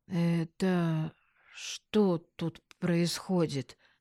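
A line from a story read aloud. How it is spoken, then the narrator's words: Dull, muffled. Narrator (Russian): глухо произнес Вадик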